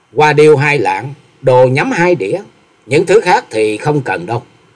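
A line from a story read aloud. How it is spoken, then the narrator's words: Smiling young woman. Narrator (Vietnamese): Bạch y thiếu nữ mỉm cười nói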